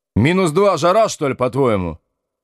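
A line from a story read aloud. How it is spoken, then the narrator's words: Barked. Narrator (Russian): рявкнул Колесников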